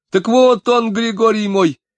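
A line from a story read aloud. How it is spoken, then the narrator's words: Very loud shout. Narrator (Russian): закричала Екатерина так громко, словно люди находились на другом берегу реки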